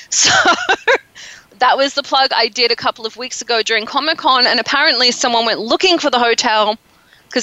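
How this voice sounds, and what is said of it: Noticeable unusual accent. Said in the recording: “I have a funny accent.”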